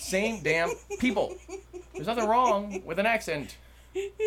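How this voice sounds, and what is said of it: Usual voice. Nothing is said of it.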